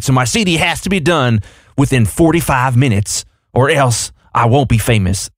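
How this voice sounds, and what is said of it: Gradually slipping into Southern accent. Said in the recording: “you started that out without a Southern accent and then slowly went into it”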